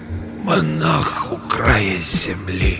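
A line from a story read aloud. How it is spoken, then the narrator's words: Hoarse breath, repeating. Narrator (Russian): Усыскин хрипло вдохнул воздух и повторил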